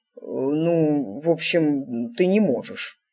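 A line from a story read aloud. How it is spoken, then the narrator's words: Mumbled. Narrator (Russian): промямлил он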